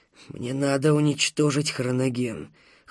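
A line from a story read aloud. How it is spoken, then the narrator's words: Fragile voice. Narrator (Russian): хрупким голосом сказал Панов Первый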